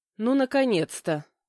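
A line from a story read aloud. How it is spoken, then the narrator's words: Tired. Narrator (Russian): устало произнесла я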